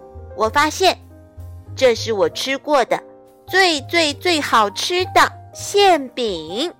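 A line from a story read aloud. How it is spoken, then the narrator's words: Joyful loud announcement. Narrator (Chinese): 小土豆高兴极了，他大声宣布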